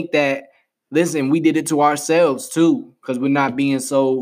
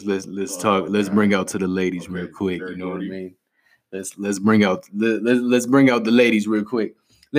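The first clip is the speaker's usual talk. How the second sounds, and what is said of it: Deliberately lowered deep voice. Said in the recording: “I'm gonna do my low voice.”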